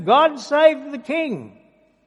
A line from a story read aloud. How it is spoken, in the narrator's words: they're all shouting